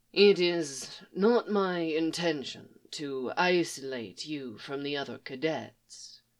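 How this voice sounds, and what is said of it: Character voice with pronounced accent. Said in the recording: “His accent sounded a lot more pronounced today”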